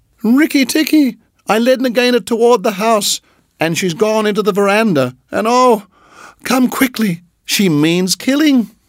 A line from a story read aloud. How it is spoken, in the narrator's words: Darzee's wife screaming